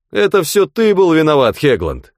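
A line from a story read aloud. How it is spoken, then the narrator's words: Shout. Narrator (Russian): крикнул Хигби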